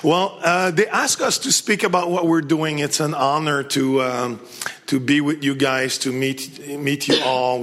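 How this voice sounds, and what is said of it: French accent, misplaced H sounds. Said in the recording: “put a H where there's no H and drop a H where there's not supposed to be H, and probably you understand my English better ... my first language too is French ... I keep mine just to remind me people.”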